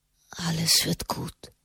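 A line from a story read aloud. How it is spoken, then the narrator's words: Comforting whisper. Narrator (German): flüsterte er ihr zu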